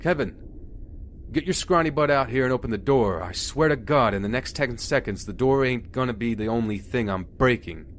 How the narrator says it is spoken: Harper yelling something like

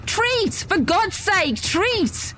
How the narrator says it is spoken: Sprinting, screamed into the night air

